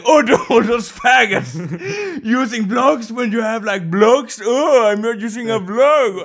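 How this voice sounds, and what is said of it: Imitates another person's voice. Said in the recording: “that was my impression.”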